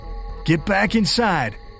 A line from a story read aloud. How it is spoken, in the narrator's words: you shout